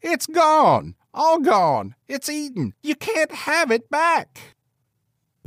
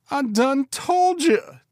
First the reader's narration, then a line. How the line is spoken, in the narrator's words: Jack pleaded